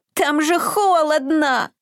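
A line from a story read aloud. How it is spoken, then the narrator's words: Whining. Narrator (Russian): захныкал Изюмка, уже привыкший к теплу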